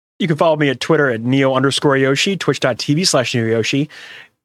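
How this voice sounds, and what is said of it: Speaking very fast. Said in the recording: “I said that really fast.”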